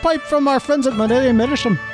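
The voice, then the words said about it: Put-on Irish accent. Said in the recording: “the best Irish Missourian accent I've ever heard ... they tried to tell me that it's offensive ... That's awful.”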